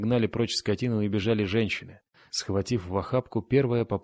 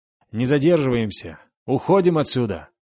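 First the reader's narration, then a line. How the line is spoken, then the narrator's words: Shouting. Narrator (Russian): крикнул, наконец, Хаген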